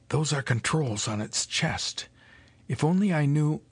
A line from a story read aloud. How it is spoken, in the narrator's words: whispered against her ear